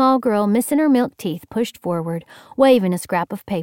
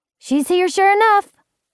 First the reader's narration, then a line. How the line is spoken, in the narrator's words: a littler one piped up